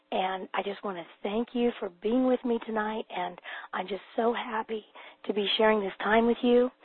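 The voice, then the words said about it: Hoarse, weak laryngitis voice. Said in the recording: “I do still have laryngitis, but I'm going to do my best to speak loud enough so that you can hear me”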